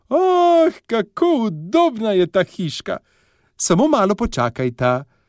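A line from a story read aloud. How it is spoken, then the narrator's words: Delighted exclamation. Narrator (Slovenian): vzkliknila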